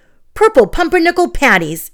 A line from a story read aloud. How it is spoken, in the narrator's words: Ellie exclaimed